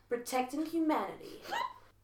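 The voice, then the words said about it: Dog character accent. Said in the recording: “my dog accent? This is my dog, cats and dogs persona”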